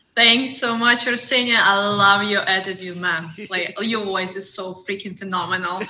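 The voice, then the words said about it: Russian accent. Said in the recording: “She is from Russia. And when I heard the accent”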